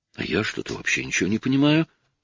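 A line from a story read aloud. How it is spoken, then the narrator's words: Pleading. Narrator (Russian): взмолилась Анжела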